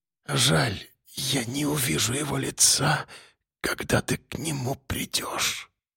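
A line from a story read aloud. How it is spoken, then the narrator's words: Muttered. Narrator (Russian): пробормотала она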